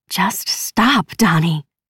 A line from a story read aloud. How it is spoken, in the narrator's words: the woman hisses